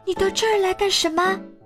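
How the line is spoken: Shouting. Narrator (Chinese): 巴豆叫道

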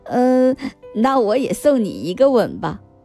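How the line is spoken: Smiling. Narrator (Chinese): 彼得潘笑笑说

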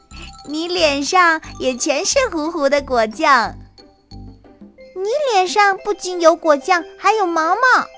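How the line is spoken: Laughing. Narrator (Chinese): 莱赛笑了

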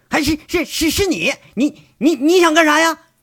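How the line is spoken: Startled shout. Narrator (Chinese): 胡主编先是惊讶，他猛地像受惊似喊一句

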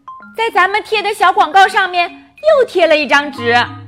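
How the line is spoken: Shouting. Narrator (Chinese): 克莱尔朝菲利克斯喊道

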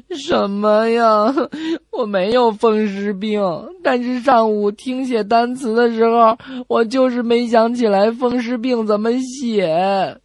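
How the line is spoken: Child, crying. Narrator (Chinese): 小孩继续哭着说

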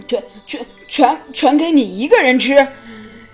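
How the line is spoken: Stammering question. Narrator (Chinese): 亨利结结巴巴地问

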